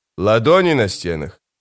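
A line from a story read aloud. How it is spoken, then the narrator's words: Skeptical snort. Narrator (Russian): скрипач хмыкнул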